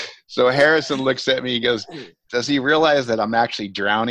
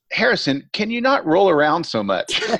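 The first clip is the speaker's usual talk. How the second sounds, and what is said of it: Australian accent. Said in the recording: “my director in his wonderful Australian accent”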